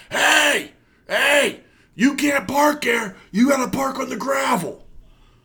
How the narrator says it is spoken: the guy in the booth comes out yelling

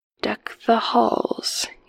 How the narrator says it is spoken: he whispered

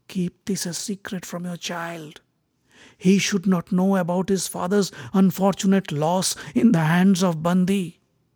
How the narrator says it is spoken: whispered to her ears

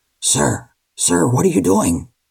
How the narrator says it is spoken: Chloe's father whisper-shouted

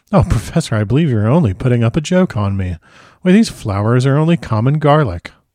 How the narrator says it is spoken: saying with half laughter and half disgust

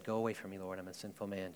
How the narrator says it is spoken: said

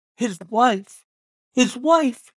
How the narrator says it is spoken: she cried

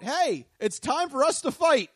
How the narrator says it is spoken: Norman began yelling at the person, saying

